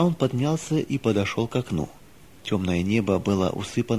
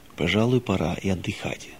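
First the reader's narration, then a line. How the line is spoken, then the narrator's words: Low undertone. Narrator (Russian): вполголоса сказал он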